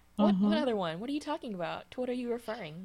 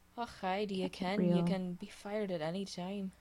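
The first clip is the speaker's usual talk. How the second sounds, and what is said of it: Bad put-on Scottish accent. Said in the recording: “speak with a Scottish accent ... it's not a Scottish accent. I think anybody would tell you that was an abomination, not a Scottish accent.”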